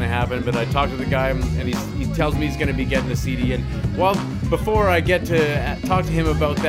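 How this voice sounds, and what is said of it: Usual voice. Nothing is said of it.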